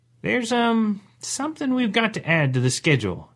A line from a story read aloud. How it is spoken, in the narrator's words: she said hesitantly